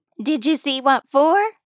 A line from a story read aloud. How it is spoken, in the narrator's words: asked, leaning in so eagerly